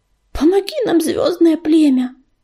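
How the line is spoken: Breathless gasp. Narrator (Russian): выдохнул он

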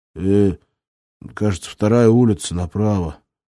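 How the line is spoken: Mumbling. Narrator (Russian): промямлил он

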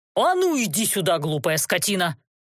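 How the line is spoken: Angry bark. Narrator (Russian): Злобно гаркнул он с порога

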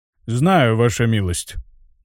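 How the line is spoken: Gloomy. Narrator (Russian): мрачно произнес Марк Дюко

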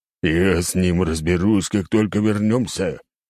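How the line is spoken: Determined declaration. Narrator (Russian): решительно заявляет Багги

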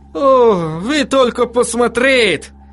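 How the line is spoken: Exclaiming. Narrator (Russian): воскликнул он

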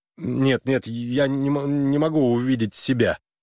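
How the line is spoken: Stuttering interruption. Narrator (Russian): заикаясь, прервал ее Харлан

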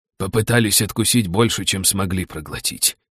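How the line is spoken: Mocking grumble. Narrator (Russian): буркнул с насмешкой Лаош

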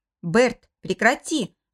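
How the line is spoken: Growling. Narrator (Russian): рыкнул Нери

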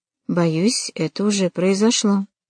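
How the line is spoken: Quiet. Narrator (Russian): тихо проговорил Мур

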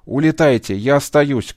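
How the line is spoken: Shouting over roaring engines. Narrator (Russian): крикнул Ветров, не зная, перекричит ли ревущие моторы

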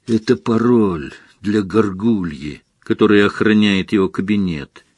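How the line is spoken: Quiet explanation. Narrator (Russian): тихо объяснил Гарри

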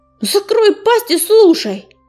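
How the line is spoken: Angry barking snap. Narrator (Russian): Сердито рявкнул на него Белохвост, племянник Огнезвезда

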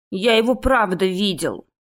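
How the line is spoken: Grumbling young man. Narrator (Russian): пробурчал Викерс-младший

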